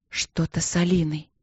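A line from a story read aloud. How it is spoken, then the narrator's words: Breathless whisper. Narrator (Russian): прошептала она, тяжело дыша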